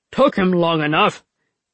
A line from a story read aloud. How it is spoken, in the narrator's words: Baji grumbled